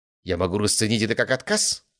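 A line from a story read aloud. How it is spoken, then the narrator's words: Skeptical snort. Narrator (Russian): хмыкнул Ломоносов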